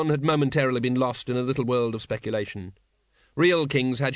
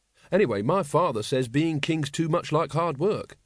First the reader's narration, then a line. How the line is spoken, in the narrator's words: said Carrot